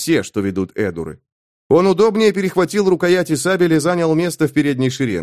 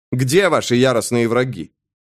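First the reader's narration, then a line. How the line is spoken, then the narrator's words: Surprised snort. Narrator (Russian): удивленно хмыкнул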